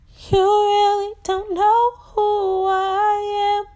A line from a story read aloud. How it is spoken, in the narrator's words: she cried out